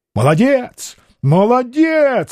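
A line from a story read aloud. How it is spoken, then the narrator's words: Shouting. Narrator (Russian): закричал Петр Алексеевич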